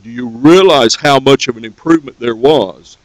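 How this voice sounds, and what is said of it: Heavily sarcastic tone. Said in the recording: “I'm saying this very sarcastically”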